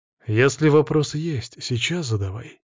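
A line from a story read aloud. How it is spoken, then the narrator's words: Calm, hiding strong emotion. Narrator (Russian): спокойно ответил я, хотя внутри происходило эмоциональное извержение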